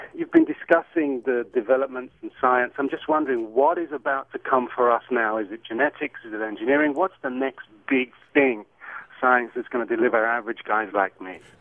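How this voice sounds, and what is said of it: British accent. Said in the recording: “I love your accent ... it's not an L.A. accent ... where's that accent from? ... It is from the UK.”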